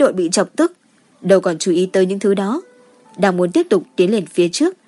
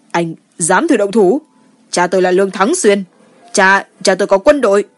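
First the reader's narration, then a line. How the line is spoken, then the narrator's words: Loud, angry, panting. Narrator (Vietnamese): Mắt Lường Chấn lộ ra một chút hoang mang, tức giận lớn tiếng hổn hển nói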